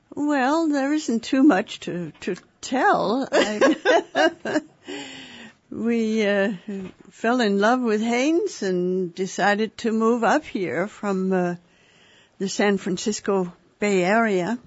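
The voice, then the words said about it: Danish accent. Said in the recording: “you have an accent ... I was born and raised in Denmark ... So I probably have some kind of an accent”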